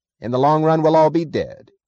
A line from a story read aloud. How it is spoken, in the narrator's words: snapped Cuffy Meggs